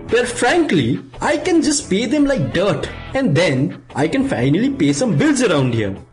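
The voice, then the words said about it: Put-on Indian accent. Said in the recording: “my voice has changed slightly ... outsource the show to Chennai, India”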